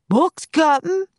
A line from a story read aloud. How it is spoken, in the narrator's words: Pinky shouted down